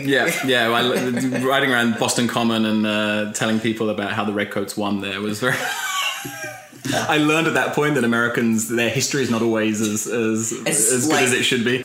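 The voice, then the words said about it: British accent. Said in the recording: “their British guide ... Having a British accent”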